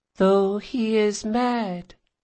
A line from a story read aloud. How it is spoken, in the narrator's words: said the girl